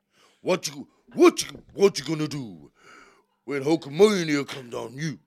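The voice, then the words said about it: Poor Hulk Hogan impression. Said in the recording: “Hulk Hogan accent ... sounded nothing like him”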